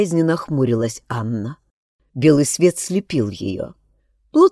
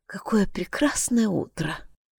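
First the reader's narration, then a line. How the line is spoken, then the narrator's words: Whisper. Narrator (Russian): прошептала она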